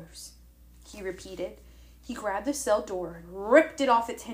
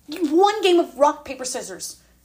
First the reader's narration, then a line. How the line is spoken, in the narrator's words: I blurted out